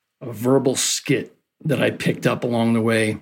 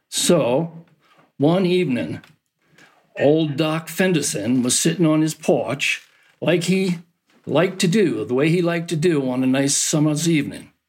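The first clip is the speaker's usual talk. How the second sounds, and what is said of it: Thick Down East Maine accent. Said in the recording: “with very thick Down East accent.”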